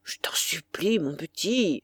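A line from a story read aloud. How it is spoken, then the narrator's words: Distressed, pleading voice. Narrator (French): dit Saint-Loup d'une voix désolée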